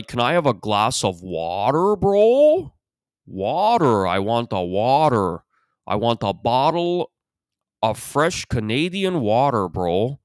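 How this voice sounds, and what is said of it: Put-on Toronto accent, drawn-out vowels. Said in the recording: “They don't raise their vowels when they should, and they raise them where they shouldn't. ... That's the Toronto accent. ... It's always these very prolonged yo's and bro's.”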